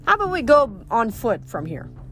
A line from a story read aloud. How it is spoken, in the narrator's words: Frank sighed with relief